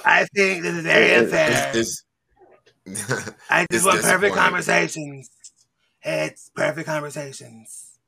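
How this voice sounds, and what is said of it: Imitates another person's voice. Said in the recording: “That's my Trump impression.”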